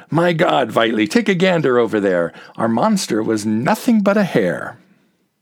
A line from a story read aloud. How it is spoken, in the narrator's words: Herr Schultz rejoiced and cried out